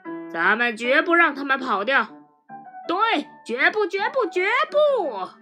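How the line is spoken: Shouting. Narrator (Chinese): 邦斯大喊说

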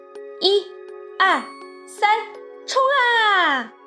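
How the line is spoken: Children shouting in unison. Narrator (Chinese): 小六子、小胖墩儿、鼻涕虫、小刺头、娇气包，憋足了劲，齐声喊

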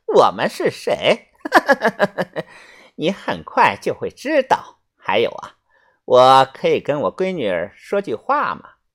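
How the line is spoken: Cackling laugh. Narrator (Chinese): 老板娘又像老母鸡一样咯咯咯的笑了两声

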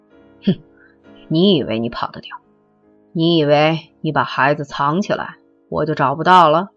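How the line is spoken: Cold, flat voice. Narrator (Chinese): 他的声音越淡

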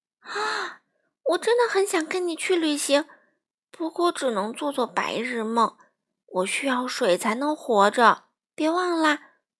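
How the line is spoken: Heavy sigh. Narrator (Chinese): 闪闪大大的叹了一口气

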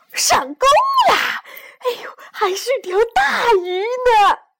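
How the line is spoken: Shout. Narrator (Chinese): 喊声

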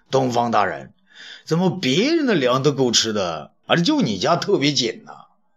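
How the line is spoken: Joking. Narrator (Chinese): 公车令韩不时开玩笑的说

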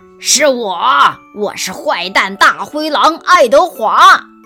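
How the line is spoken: Loud. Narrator (Chinese): 安娜大声地说

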